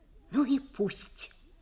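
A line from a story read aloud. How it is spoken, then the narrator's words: Whispered. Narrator (Russian): прошептал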